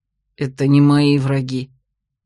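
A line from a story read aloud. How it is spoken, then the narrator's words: Reluctant mutter. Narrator (Russian): нехотя буркнул и стиснул зубы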